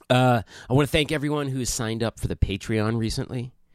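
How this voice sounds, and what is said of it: Sick-sounding, unusual speaking voice. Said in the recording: “If you can't tell by my voice, I am, in fact, a little under the weather right now... my unusual speaking voice”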